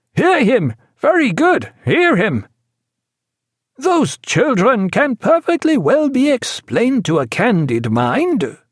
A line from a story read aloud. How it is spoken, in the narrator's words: cried Dutour over the hubbub